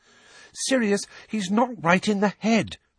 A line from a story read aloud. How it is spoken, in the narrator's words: Hermione pleaded